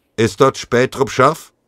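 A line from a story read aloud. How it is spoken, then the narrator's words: Voice calling out. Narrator (German): Dann rief eine Stimme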